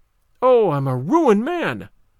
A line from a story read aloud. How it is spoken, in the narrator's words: When the wagoner became aware of it, cried out again